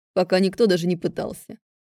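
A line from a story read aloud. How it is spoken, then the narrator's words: Snorting remark. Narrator (Russian): хмыкнул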